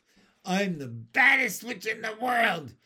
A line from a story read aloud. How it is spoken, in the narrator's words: yelled Ramona